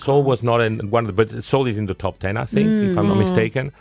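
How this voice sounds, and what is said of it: Mixed accent, slight South African twang. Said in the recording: “Your accent's very interesting ... I'm picking up a bit of South African sort of twang there as well, just a little bit”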